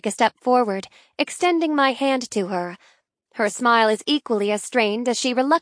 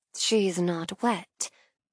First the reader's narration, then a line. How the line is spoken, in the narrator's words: she whispers